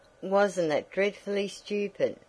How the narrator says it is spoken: sighed, as she lay stretched out on the soft white bed

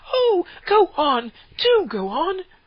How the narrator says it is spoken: the children cried

